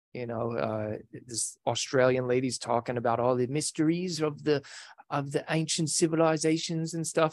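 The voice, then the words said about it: Put-on Australian accent. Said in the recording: “there's a horrible Australian accent ... That was pretty good. Better than I could do.”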